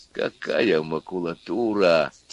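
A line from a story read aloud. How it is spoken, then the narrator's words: Quiet exclamation, bald man. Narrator (Russian): тихо воскликнул лысый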